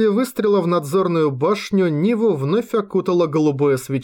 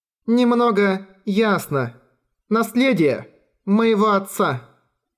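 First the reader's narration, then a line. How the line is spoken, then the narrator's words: Plain. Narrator (Russian): сказала Чайка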